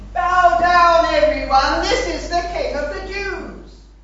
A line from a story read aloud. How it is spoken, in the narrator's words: They shouting